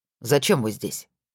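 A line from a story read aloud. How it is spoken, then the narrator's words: Overly sharp. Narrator (Russian): прозвучало чересчур резко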